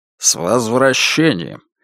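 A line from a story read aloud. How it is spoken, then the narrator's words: Hoarse, heavy foreign accent. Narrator (Russian): Хрипло начал Джозеф с густым континентальным акцентом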